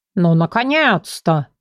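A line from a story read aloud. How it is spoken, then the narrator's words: Snorting. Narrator (Russian): фыркнул тигр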